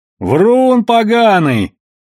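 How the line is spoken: Shouted out. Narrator (Russian): выкрикнул кто-то с той стороны стола

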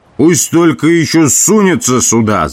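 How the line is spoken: Yelled. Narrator (Russian): заорал он

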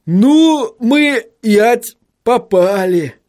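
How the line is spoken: Groaning. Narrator (Russian): простонал господин Тюльпан

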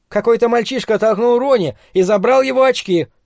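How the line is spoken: Young man shouting. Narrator (Russian): прокричал парень

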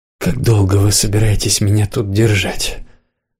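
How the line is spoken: Tired question. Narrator (Russian): спросила она устало

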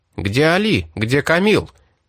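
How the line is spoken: Shouting in unison. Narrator (Russian): крикнули они одновременно

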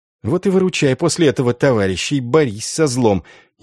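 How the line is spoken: Venomous hiss. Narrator (Russian): ядовито прошипел Энгель

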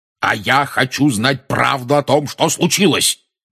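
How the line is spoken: Roared. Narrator (Russian): проревел дядя Вернон

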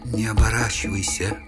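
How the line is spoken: Quiet whisper from behind. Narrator (Russian): раздался за моим плечом тихий шепот самой уродливой наемницы

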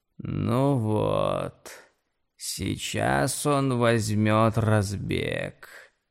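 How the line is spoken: Creaking voice, roof speaking. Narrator (Russian): проскрипела крыша хижины

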